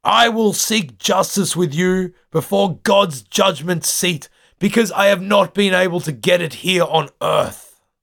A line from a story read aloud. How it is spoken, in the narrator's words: He yells out to Pelsart and the ship's council